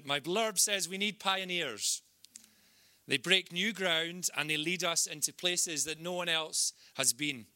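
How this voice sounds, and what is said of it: Scottish accent with rolled R's. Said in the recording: “it's very Scottish. Roll the R's with my Scottish accent.”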